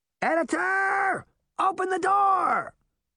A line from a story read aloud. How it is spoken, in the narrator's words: Puck shouted over the noise